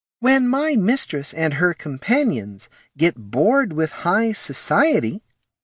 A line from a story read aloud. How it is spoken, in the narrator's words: he said slowly